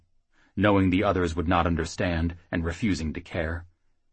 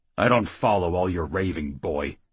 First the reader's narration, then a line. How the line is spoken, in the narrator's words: Rednail grumbled